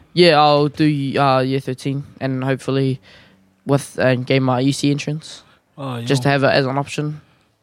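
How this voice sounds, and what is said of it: New Zealand Canterbury accent. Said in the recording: “This is Canterbury accent.”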